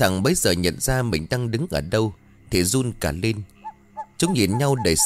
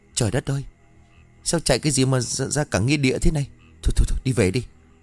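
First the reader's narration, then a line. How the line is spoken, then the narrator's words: Stammering. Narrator (Vietnamese): nó lắp bắp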